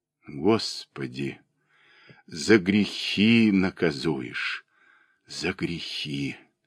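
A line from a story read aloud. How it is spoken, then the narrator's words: Slow hoarse choked whisper. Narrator (Russian): медленно шептали ее уста, ее голос был глух и хрипл от душивших ее чувств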